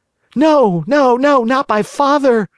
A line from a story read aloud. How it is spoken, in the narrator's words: cried Pinocchio, wild with terror